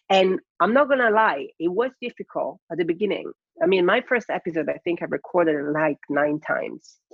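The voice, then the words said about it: Non-native English accent. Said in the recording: “English is not my first language ... People are not going to understand my accent.”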